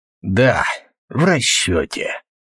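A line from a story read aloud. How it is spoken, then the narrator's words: Hoarse flat voice. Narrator (Russian): каким-то севшим бесцветным голосом сказал тот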